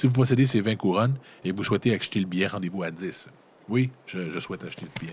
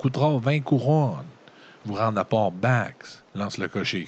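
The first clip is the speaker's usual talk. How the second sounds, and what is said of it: Strong put-on regional accent. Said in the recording (French): “lance le cocher qui s'exprime avec un fort accent de Ragadorn. C'est quoi un accent de Ragadorn? Prends un accent du lac.”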